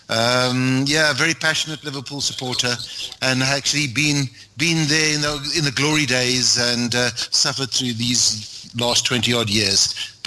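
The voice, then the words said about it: Noticeable accent. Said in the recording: “Living in South Africa, obviously, you can tell from the accent.”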